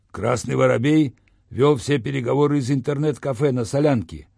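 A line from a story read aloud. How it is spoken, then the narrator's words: Deep bass. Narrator (Russian): пробасил телохранитель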